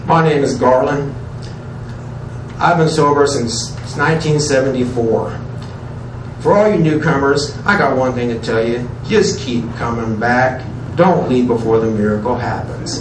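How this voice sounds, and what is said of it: Country, hard-working man's voice. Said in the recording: “my impersonation ... what I consider a country, hard-working voice”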